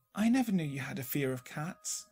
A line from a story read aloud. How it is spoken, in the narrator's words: said gently